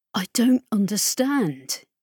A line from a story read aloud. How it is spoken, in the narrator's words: he said